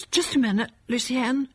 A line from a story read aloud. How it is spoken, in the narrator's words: said in a shaky voice